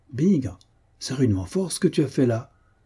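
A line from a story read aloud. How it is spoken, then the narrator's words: Exclaiming. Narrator (French): s'exclama Denris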